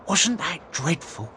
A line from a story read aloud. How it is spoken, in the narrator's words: A plastic comb whispered